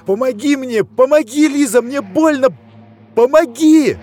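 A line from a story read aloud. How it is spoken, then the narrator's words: Desperate straining scream. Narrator (Russian): Он надрывал горло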